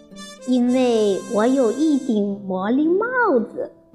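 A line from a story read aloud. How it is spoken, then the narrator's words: Smiling. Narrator (Chinese): 猫头鹰笑着说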